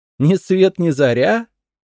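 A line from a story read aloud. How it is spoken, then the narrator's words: Laughing. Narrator (Russian): рассмеялась Джулия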